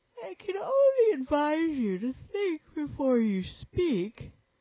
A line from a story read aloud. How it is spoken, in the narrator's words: said the Sand Fairy sleepily